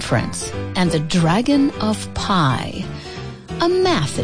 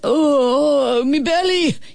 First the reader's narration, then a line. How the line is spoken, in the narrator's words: he wailed